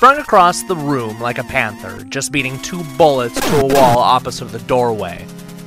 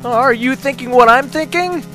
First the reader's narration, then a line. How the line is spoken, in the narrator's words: Joe called out